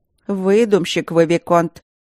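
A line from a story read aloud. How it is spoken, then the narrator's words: Stern speech. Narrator (Russian): грозно сказала медсестра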